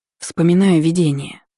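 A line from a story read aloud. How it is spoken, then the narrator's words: Sigh. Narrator (Russian): вздохнула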